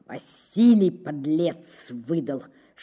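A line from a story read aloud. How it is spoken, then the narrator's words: Whisper through teeth. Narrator (Russian): шепчет он сквозь зубы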